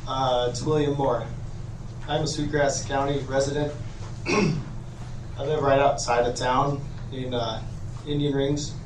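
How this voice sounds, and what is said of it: Hoarse, strained voice. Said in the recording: “Sorry, I lost my voice recently.”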